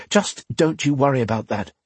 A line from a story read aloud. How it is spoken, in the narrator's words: the woman said